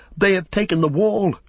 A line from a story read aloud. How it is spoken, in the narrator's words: men cried